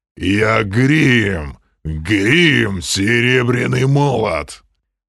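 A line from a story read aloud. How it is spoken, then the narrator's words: Giant's growl. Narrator (Russian): прорычал гигант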